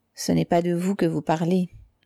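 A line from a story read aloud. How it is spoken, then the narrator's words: Low voice. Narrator (French): dit-elle à voix basse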